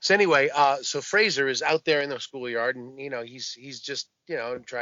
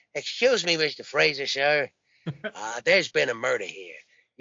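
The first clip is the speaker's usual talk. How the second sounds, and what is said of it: Columbo impression. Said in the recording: “I hunch over ... Columbo impression. And it was so much better than his”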